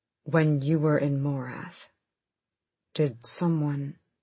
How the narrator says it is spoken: He said too calmly

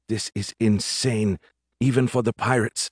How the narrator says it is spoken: muttered

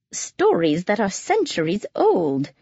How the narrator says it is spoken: she exclaimed

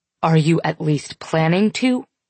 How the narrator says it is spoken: Corbin asks

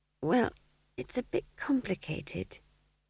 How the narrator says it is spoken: said McGrath weakly

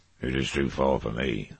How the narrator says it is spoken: he muttered

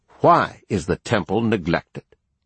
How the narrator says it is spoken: angrily asked them

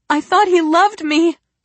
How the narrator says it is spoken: Blair wails

